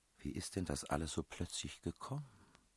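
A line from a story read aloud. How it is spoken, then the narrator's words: Princess speaking softly. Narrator (German): sagte die Prinzessin leise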